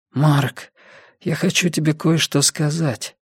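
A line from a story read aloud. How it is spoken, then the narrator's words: Hoarse. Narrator (Russian): хрипло сказал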